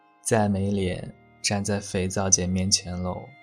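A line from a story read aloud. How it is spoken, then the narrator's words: Dejected, sighing. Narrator (Chinese): 石斑心灰意冷的淡淡的叹出一口气，说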